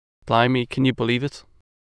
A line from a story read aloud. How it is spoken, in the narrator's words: exclaimed, his eyes shining with anticipation